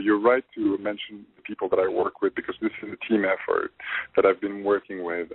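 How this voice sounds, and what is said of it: French accent. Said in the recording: “my the French accent that I have”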